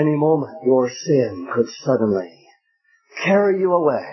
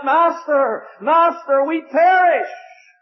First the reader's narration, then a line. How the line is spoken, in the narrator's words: these men crying out